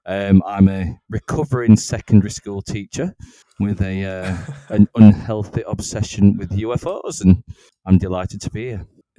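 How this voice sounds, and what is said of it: Regional English accent. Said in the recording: “my accent differs ever so slightly from these two. So we've got a wonderful bit of north and south working together.”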